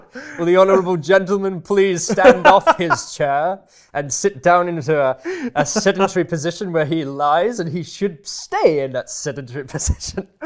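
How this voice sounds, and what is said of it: Booming bellowing parliamentary voice. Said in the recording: “I will bellow out ... I've got a better booming voice than Berko ... That's a good impersonation.”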